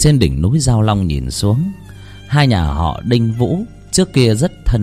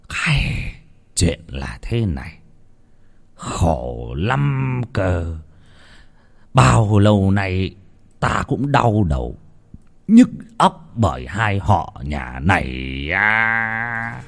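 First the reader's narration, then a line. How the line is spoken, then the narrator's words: Heavy weary sigh. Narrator (Vietnamese): Lão Trọng Kiên thở dài sườn sượt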